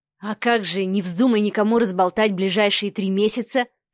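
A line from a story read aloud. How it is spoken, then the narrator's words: Amused snort. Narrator (Russian): хмыкнул Адмиралов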